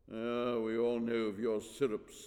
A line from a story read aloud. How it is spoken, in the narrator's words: sneered Antrax